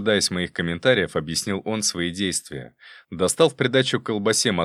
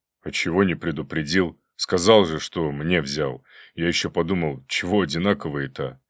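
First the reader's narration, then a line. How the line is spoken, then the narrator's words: Hopeful question. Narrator (Russian): Жора с надеждой поинтересовался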